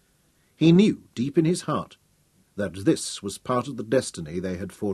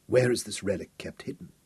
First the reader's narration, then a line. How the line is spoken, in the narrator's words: asked huskily